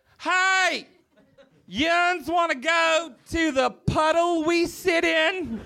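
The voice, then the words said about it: Put-on West Virginia accent. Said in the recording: “I grew up in West Virginia, and so I, you can't tell that I have an accent”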